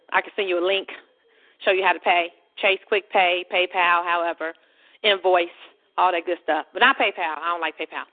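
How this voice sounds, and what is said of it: Out of breath. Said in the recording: “out of breath, y'all. I'm walking on my little exercise thing.”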